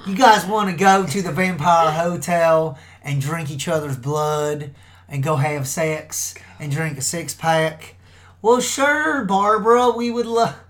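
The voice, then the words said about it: Put-on country accent. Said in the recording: “a little bit of a country accent”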